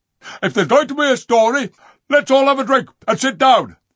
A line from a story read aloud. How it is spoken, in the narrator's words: barked the dogs